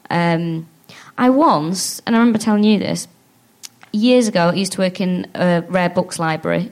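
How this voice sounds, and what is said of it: Manchester English accent. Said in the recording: “in Manchester. I know with my accent”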